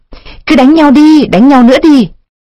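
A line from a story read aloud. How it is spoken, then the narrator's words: Shrill goading voice. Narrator (Vietnamese): Một giọng nói xúc xiểm the thé phát lên từ thanh củi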